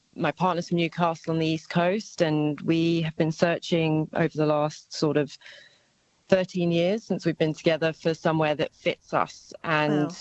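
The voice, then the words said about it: British accent. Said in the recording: “you can probably tell by my accent that I'm originally from the UK”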